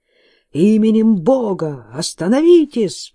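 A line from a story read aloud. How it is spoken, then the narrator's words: Shouting. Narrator (Russian): прокричал он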